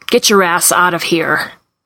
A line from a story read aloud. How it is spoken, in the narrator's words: snarls